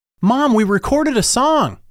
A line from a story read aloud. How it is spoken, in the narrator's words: Patrick yelled